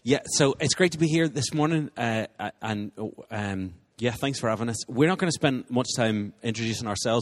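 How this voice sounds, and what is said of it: Non-local accent, fairly fast speech. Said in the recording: “I have an accent. I mean, you all have an accent, but I have an accent. If I'm too fast for you”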